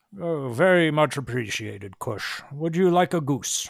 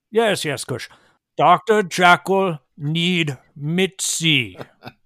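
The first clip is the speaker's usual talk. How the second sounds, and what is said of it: Slow, patronizing speech. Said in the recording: “Don't be patronizing ... saying it slowly for you, sir. This is very important, so I'm saying it slowly”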